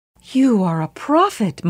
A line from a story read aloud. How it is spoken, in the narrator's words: Muhammad's wife exclaimed